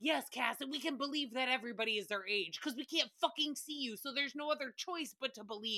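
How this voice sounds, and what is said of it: Usual voice. Nothing is said of it.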